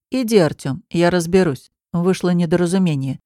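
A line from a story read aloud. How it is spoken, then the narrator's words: Calm, authoritative. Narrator (Russian): говорит ему незнакомец спокойно, но так, что сразу понятно, кто здесь главный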